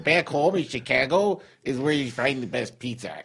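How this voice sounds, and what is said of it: Put-on regional accent. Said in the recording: “You could still do your accent if you want”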